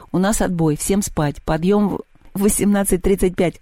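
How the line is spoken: Giggling. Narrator (Russian): хихикнул Севка

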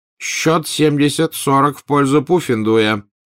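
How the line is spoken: Barked through megaphone. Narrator (Russian): рявкнула в рупор профессор МакГонагал

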